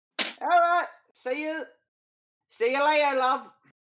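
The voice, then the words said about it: Put-on accent, badly done. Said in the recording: “Terrible accent, eh, mate?”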